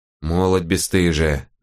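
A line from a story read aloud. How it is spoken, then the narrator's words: Old woman grumbling. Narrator (Russian): заворчала старуха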